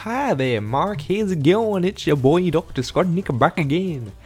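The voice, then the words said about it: Southern accent drifting into Indian accent. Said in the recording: “accent was like southern, and then it turned into sort of like an Indian accent.”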